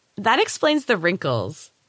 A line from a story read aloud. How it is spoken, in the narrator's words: giggled the girl